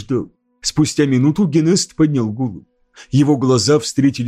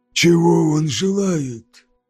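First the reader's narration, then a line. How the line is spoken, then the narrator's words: Hoarse rasp. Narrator (Russian): прохрипел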